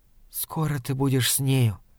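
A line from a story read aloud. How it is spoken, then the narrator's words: Hurried whisper. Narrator (Russian): торопливо шепнула она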